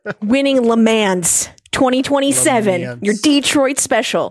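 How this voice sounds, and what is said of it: Thick put-on American accent. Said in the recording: “Give me a thick American accent.”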